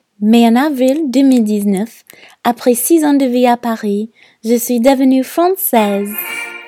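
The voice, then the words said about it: American accent speaking French. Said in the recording (French): “mon accent distinctif ... révèlent ma nationalité de naissance, américaine”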